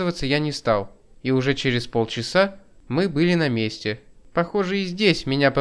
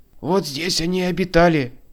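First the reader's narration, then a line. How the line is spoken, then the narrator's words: Hoarse report. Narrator (Russian): сипло доложил мой сопровождающий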